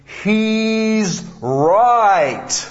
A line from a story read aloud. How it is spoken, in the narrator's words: a deep booming voice intoned